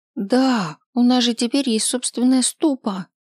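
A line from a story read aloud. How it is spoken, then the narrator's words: Joyful reminder. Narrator (Russian): радостно напомнила Помело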